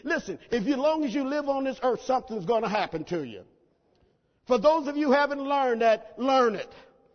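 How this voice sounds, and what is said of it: Country Oklahoma accent. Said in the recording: “I'm a bit country. Okay, I'm from Oklahoma, and we tend to do country stuff and talk country”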